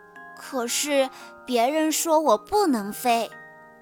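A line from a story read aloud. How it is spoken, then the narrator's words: Sighing. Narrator (Chinese): 小雄蜂博梅尔叹息道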